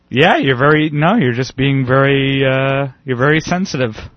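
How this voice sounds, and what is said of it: Imitates another person's voice. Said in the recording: “my girlfriend impression ... that's my girlfriend impression”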